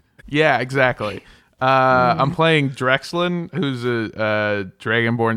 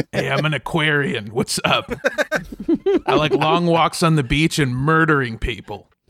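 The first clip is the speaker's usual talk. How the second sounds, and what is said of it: Gruff raspy character voice. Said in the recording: “He just sounds like that. He breathes fire, so he sounds like he smoked 1,000 cigarettes ... He's Gruff Armando.”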